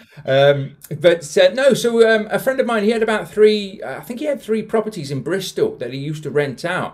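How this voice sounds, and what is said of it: Mild southern English accent, London and Bath. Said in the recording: “I'm not from South Yorkshire, you can probably tell from the accent... We were originally from London, moved to Bath when I was about 10 and grew up there, which is why I sound like I do now. But it's not as strong as it used to be.”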